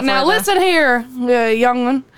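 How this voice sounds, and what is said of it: Put-on Southern judge accent. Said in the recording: “Can you put a southern accent swing on it? ... like a Louisiana judge”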